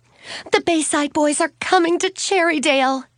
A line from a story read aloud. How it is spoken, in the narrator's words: Suzanne blurted out